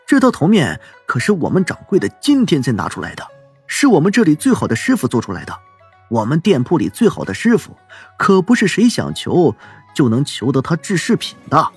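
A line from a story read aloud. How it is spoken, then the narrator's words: Lowered voice. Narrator (Chinese): 伙计 压低了声音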